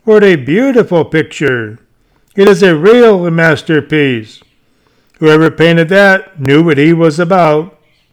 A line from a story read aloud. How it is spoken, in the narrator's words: they exclaim with pleasure